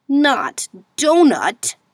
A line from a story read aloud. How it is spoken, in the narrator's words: exclaimed in dismay